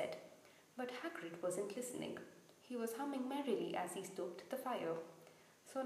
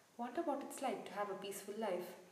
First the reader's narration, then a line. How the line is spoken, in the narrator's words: Ron sighed